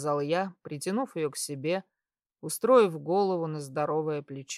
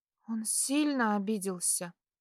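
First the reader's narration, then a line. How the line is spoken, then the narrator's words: Quiet question. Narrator (Russian): Тихо спросила она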